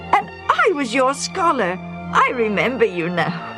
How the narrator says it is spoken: the younger man exclaimed in turn

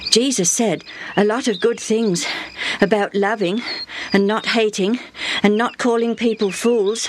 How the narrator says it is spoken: Benny panted

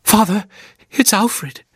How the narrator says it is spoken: she gasped

